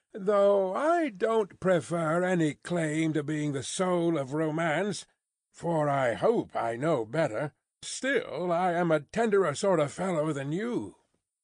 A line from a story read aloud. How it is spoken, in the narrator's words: rejoined Stryver, laughing boastfully